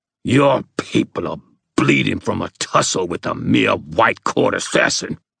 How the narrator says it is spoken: the ghoul hissed

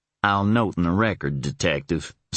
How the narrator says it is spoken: Stephen answered dryly

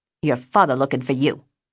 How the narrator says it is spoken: he snapped

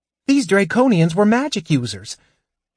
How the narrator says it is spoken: Tass said impatiently, anxious to get started

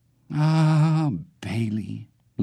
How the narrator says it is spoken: Leon sighed, his voice fluttering with sadness

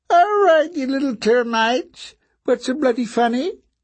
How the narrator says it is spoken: he asked in a squeaky, brittle voice

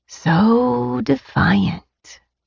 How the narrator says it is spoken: he whispered

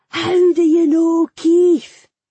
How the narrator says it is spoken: he shouted, much louder than before

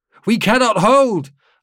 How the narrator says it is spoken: Lalink shouted

